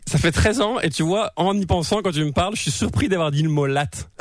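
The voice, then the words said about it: French accent from France. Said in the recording (French): “ton accent, tu l'as jamais vraiment perdu ... Tu peux pas avoir pris l'accent en un an”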